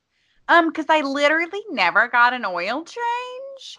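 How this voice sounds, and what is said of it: Mocking put-on voice. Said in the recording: “Why are you doing that voice? ... Because I was making fun of myself.”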